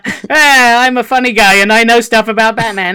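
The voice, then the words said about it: Impression of Dylan Pollock. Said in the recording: “Can you do a Dylan Pollock impression? ... That sounds just like him.”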